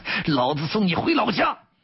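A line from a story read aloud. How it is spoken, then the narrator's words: Loud. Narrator (Chinese): 金殿敖大声道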